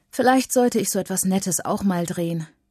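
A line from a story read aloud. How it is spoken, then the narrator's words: Sighing. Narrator (German): seufzt Mama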